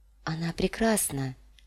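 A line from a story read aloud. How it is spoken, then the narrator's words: Muttering. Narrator (Russian): пробормотала Дэнни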